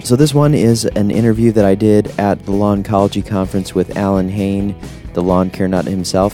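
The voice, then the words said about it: Unwell, rough-sounding voice. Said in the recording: “You can probably hear from my voice that after I got back from Florida, things did not sound so good going on right in there.”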